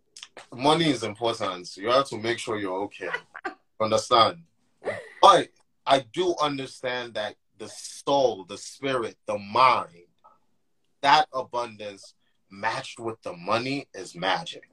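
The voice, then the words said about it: Nigerian accent. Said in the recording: “I'm Nigerian... this man's Nigerian. I can hear the accent already.”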